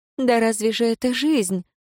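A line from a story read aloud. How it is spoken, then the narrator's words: Prisoner's exclamation. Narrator (Russian): воскликнула узница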